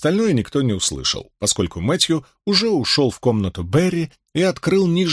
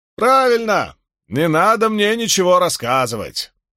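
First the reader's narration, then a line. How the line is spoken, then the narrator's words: Shouting after. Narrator (Russian): крикнул ему вслед Григсби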